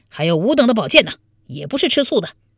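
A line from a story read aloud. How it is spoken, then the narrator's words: Loud group shout. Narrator (Chinese): 王彦生、李楚云、潘美、田崇进等大声叫道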